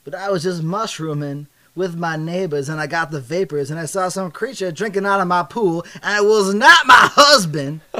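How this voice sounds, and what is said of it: Weak put-on Deep South accent. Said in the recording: “now it's deep south and my accent's not good”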